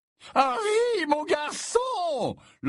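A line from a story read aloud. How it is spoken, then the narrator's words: Booming loud voice. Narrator (French): lança Slughorn d'une voix de stentore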